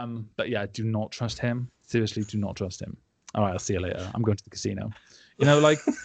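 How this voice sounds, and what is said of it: Usual voice. Nothing is said of it.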